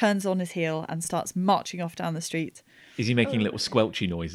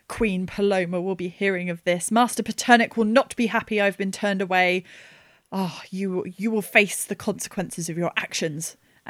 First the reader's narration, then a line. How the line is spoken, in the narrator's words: He very, very furiously says